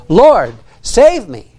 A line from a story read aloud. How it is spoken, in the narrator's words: he was afraid, and beginning to sink, he cried, saying